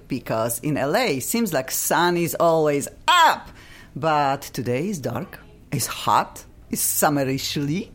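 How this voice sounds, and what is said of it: Funky foreign accent. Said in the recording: “I'm bringing every Monday mine. I cannot get rid of. Probably I will die with this funky accent.”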